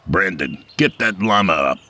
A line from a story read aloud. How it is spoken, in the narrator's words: he barked